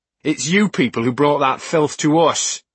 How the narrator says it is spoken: Starkweather bellowed

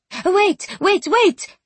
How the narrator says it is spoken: she blurted

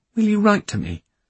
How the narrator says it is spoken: she asked, her tone a little plaintive

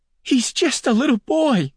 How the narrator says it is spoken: she screamed

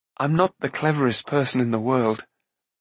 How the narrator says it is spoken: Rune added, smiling sadly

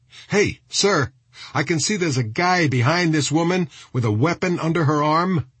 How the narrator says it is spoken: shouted Elliot

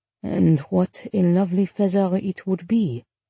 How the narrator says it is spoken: Marcel murmured

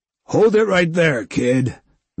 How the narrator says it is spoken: Vector hollered

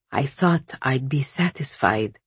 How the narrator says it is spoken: Softly he said

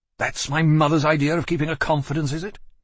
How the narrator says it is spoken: said, moving furiously

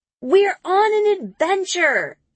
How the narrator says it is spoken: she yells

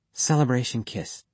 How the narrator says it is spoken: she whispered

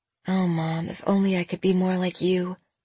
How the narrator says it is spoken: Jenna murmured

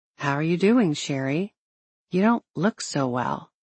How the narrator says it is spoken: a pastor who gently asked

